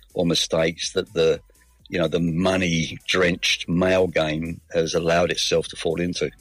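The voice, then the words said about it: Mixed London and Australian accent. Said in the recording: “You don't sound 100% Aussie. ... it is a lovely mix of London and Australia”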